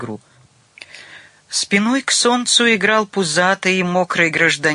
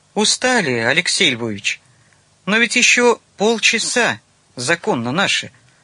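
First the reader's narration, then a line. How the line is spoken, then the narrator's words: Calm man. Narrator (Russian): спокойно ответил мужчина в темных очках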